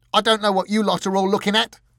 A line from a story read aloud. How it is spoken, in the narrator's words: he shouted